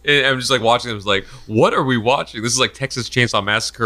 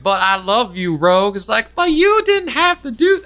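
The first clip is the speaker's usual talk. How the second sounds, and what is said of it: Deliberately bad put-on Southern accent. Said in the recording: “I'm doing terrible southern accent.”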